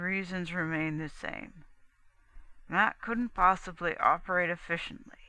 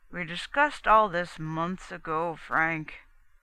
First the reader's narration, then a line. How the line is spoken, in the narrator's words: Cannon said wearily